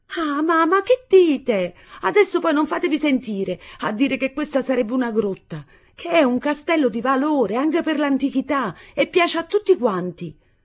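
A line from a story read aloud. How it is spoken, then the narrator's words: Proud exclamation. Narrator (Italian): Nunz esclamò, superba del suo castello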